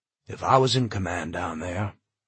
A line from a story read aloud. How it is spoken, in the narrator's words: Charlie continued, his voice sad, remote